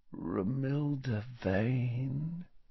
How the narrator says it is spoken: said Ron softly

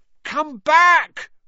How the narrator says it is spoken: Ron yelled after it

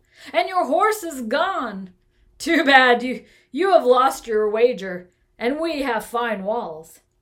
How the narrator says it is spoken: they chuckled

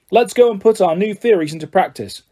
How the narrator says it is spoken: Wood shouted

